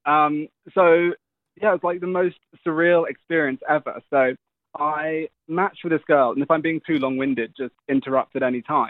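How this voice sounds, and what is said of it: Speaker with a noticeable accent. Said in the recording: “we love your accent, so just keep talking.”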